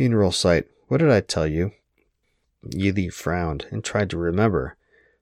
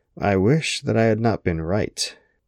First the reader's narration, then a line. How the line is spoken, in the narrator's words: she sighed, shaking her head ruefully